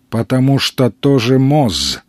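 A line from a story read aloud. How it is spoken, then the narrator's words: Interrupting with a sigh. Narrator (Russian): перебил его странник, вздохнув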